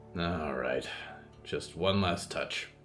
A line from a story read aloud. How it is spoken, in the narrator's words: Hector said, with the particular sigh he reserved for abandoning arguments